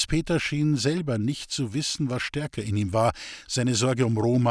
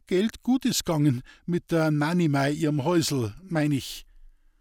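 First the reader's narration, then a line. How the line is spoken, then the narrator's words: Stammering, breaking off. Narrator (German): er brach wieder ab und stammelte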